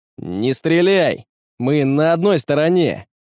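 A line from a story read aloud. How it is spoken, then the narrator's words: Shout. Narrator (Russian): выкрикнул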